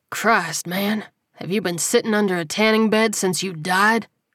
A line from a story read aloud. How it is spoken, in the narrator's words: He grunted